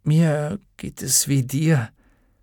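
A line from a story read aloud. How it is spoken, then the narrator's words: Uncertain voice. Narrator (German): sagte sie mit unsicherer Stimme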